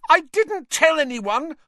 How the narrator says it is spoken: Hermione shrieked

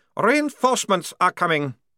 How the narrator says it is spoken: he snapped

